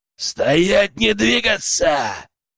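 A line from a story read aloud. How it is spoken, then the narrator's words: Thundering voice. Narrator (Russian): прогремел знакомый голос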